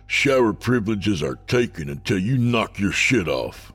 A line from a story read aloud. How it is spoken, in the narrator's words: Bryce barked